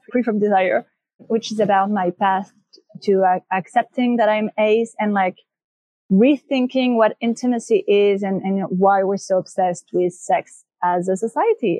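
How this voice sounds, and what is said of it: French accent. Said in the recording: “It's a French accent. ... It's beautiful.”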